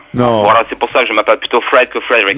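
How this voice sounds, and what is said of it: Unconvincing put-on Anglo-French accent. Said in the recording (French): “Anglo-français ... cet accent-là, on y croit pas ... Ça marche pas avec nous, on n'y croit pas”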